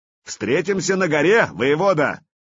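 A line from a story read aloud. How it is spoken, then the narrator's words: Shout after someone. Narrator (Russian): крикнул вслед Артему Владимир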